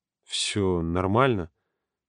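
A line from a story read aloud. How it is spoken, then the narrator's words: Trembling voice. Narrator (Russian): дрожащим голосом спросил Юрка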